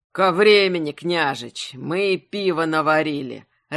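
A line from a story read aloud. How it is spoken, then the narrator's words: Joyful deep booming voice. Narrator (Russian): радостно прогудел густым голосом Пропрут, старший сын Взимока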